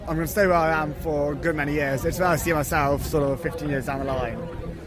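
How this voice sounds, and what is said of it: Southern English accent. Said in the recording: “I noticed by your accent you're from down south, aren't you? From Surrey.”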